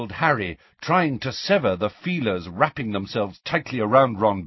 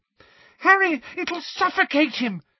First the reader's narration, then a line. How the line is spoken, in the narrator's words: screamed Ginny, immobilized by her broken ankle